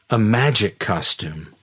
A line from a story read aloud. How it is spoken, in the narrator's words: she exclaimed